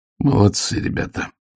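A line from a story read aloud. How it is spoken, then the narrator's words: Forced out. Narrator (Russian): выдавил он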